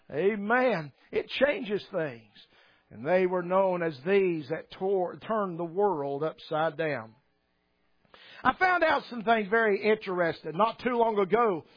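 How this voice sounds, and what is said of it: Southern US accent. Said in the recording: “A lot of people recognize my accent, that I'm not from around here ... I'm from the South”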